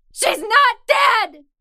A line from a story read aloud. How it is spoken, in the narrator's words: screamed